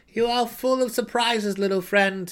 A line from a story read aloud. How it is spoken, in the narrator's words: he answered with a sigh of surrender